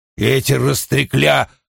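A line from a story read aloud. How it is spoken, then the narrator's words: Grumbling. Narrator (Russian): заворчал Уна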